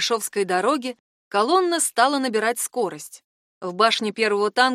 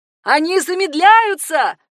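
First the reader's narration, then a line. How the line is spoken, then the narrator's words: Shouting. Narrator (Russian): закричала Хана Аня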